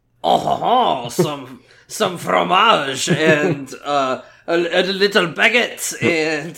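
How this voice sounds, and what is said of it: Put-on French accent. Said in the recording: “sounds French. Can anyone do a French accent? I think you can do a French accent.”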